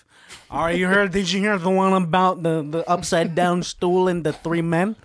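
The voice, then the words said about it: Imitates another person's voice. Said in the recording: “I don't know if you're an Italian man or an old Filipino guy ... You sound like a drunk soprano, bro.”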